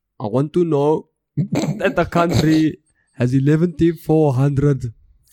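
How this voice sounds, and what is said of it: Poor imitation of another person's accent. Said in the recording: “I'm terrible at accents ... Jacob Zuma, but holy shit. Guessing don't ever do that accent again”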